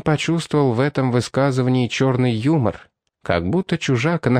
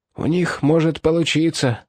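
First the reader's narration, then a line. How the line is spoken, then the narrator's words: Hoarse, dry, pained. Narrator (Russian): прохрипел Мешлер, будто горло у него пересохло, а слова вырывались с болью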